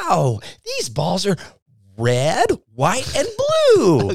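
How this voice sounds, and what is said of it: High-pitched kids' show host voice. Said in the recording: “talks with a really high voice ... my best Blippi impression”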